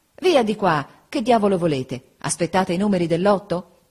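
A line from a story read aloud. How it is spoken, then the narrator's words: Impatient exclamation. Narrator (Italian): Giuseppe, spazientito, esclamava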